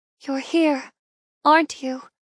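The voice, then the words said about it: Soft quiet voice. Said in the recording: “I continue in a soft voice.”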